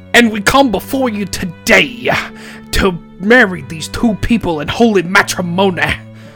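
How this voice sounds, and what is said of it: Preacher voice. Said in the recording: “accent-wise, two preachers officiating the wedding ... your preacher voice”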